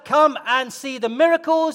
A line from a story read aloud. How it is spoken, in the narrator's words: He didn't shout